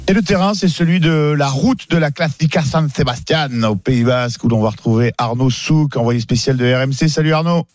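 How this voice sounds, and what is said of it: Exaggerated put-on accent. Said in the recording (French): “quel accent incroyable ... je me pince la langue ... J'y suis allé un peu fort”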